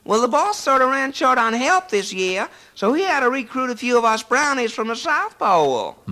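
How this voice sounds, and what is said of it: Put-on American Southern accent. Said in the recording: “with a southern accent”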